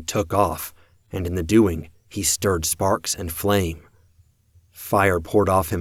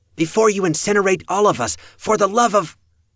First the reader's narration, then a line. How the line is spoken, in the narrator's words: the elder sister shouted